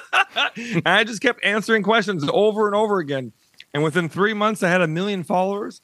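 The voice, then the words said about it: Wisconsin accent. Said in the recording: “you're from Wisconsin, right? ... And I can hear it in that accent, too, of course.”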